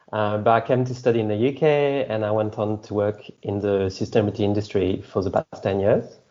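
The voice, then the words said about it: French accent. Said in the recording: “I'm originally from France, so the accent.”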